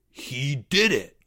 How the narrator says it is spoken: gasped Greg

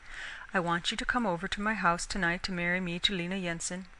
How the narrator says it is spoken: said quietly

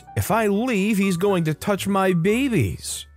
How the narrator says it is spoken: without holding back, she screeches

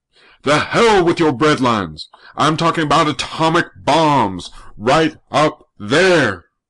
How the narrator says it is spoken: Old Charlie kept roaring

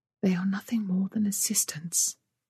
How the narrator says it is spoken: she whispered

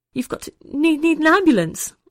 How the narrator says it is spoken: Ollie spluttered

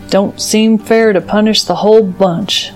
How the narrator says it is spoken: Uncle Tao growled

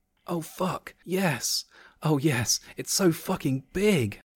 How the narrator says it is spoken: Jessica gasped

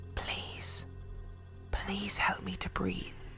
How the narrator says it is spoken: a clear voice whispered

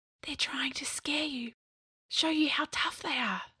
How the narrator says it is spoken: Scrat whispered

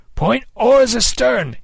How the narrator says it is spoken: he cried

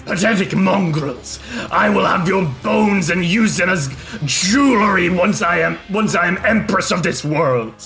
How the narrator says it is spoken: roar and says

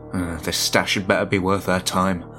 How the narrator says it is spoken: Harvey muttered

